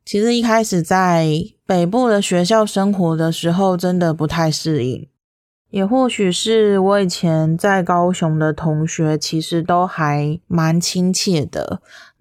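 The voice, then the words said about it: Slight southern Taiwanese Mandarin accent. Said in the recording (Chinese): “特殊的口音？习惯这个口音之后呢，觉得这个口音很可爱 ... 其实我是在高雄长大的 ... 就带着有一点南部的那种台湾国语的腔调”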